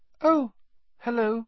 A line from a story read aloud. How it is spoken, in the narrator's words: he said, his voice much higher than usual